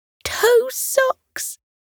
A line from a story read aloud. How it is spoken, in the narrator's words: Potato squealed